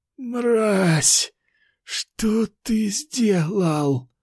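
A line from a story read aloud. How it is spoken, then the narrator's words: Rasping. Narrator (Russian): прохрипел эльф-рыцарь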